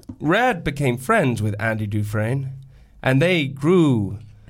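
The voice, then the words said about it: Morgan Freeman impression, narrator voice. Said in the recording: “narrating Morgan Freeman's life ... why would you be doing an impression of him?”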